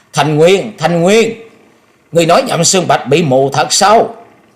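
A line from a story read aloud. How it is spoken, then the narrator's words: Shrill loud scream. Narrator (Vietnamese): cao giọng hét lên thè thé nói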